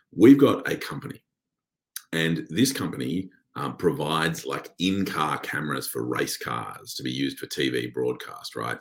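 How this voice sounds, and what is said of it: Scratchy, slightly hoarse voice. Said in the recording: “my voice is a bit scratchy”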